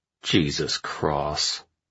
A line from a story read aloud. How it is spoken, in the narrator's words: Arash muttered